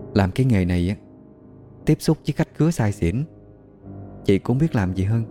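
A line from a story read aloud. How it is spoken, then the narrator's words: Soft sighing voice. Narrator (Vietnamese): Chị Trúc thở dài, nhỏ nhẹ nói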